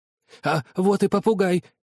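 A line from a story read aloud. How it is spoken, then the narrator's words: Exclaimed. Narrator (Russian): воскликнул Скрудж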